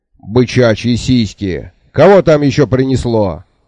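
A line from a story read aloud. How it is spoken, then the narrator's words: Barked. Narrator (Russian): рявкнул Бубута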